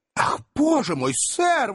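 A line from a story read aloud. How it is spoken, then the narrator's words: Exclaiming woman. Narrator (Russian): воскликнула миссис Бардл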